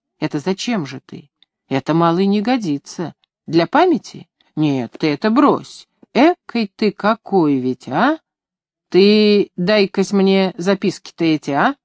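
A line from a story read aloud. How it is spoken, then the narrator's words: Long insistent persuading. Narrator (Russian): долго и настойчиво убеждал меня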